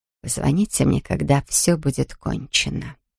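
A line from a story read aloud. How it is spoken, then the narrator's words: Whisper. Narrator (Russian): прошептала она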